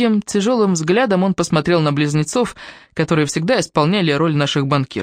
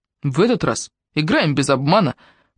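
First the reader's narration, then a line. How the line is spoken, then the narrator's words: Stern warning. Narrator (Russian): предупредил он строго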